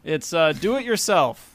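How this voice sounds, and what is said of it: Robot voice. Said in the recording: “in my robot voice”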